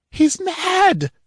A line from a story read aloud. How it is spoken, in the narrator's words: howled a woman, wringing her hands as she rushed brainlessly about